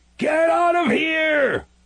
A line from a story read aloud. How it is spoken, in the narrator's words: I screamed at the bears